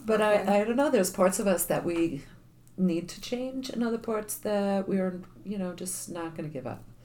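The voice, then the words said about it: Charming New York accent. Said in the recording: “I'm still a New York girl through and through, and I'm still getting compliments on my accent, that it's charming”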